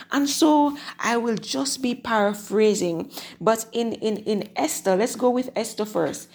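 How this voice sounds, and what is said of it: Slightly hoarse voice. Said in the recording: “sounding a little hoarse”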